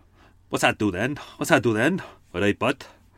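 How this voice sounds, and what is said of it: Put-on South Wales accent. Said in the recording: “not a great accent ... mostly a bit of Cardiff with a hint of Swansea in there ... That's my way to get into Tim's accent ... That's the South Wales thing to say.”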